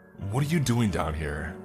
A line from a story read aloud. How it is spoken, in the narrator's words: he yelled